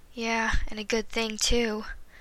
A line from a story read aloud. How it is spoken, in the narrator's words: Marty sighed